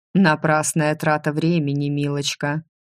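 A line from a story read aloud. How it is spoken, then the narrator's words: Mocking remark. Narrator (Russian): насмешливо заметил все тот же голос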